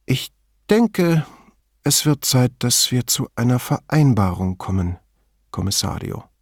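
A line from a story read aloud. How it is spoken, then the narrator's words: Tired. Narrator (German): sagte er müde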